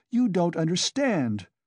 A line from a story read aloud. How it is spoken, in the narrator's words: cried Katerina Ivanovna, angrily